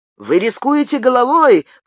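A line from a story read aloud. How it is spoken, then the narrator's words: Shout from audience. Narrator (Russian): крикнул кто-то из зала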